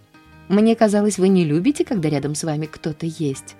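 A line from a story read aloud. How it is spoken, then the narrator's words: Plain. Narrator (Russian): ответила она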